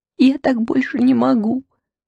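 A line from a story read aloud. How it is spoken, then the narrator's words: Sobbing. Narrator (Russian): всхлипывала Юлечка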